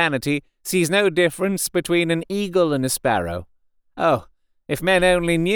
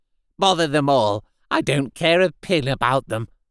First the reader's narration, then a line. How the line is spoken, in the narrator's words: at length said testily